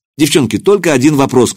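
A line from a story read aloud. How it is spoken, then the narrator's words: Shouted. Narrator (Russian): крикнул я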